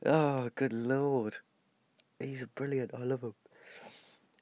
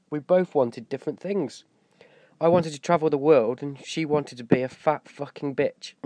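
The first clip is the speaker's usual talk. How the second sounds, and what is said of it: Poor put-on Australian accent. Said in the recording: “I told you it was rubbish. My Australian accent.”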